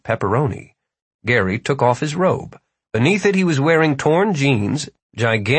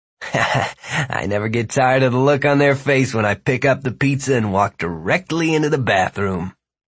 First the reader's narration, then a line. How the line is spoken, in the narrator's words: he said, chuckling